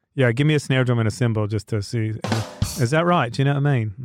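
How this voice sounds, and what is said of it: Put-on British accent. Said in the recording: “do I do a good British accent? ... It sounds like you got it down.”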